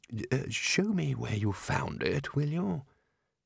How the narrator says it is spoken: Ridcully said quietly

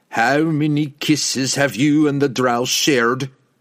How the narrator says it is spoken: bellowed

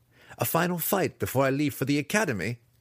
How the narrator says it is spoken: he laughed

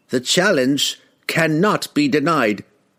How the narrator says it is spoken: cried Revjak

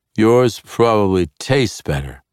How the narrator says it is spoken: Zacnaphane said, suddenly slurring

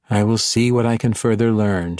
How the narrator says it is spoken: she said, surrendering with a sigh

